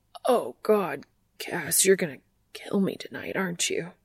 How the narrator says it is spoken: he stutters

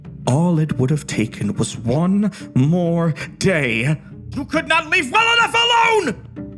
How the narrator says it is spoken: His voice rose to a maniacal pitch

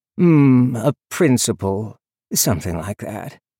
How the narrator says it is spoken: he murmured

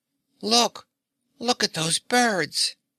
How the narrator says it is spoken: Button-Bright, who had tumbled flat on his back, cried out

